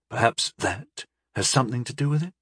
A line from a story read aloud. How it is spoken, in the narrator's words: Atipod said quietly